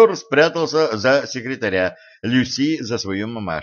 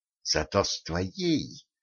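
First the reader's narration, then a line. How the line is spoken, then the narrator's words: Hissing. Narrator (Russian): зашипела Катран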